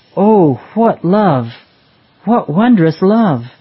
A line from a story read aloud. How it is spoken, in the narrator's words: exclaim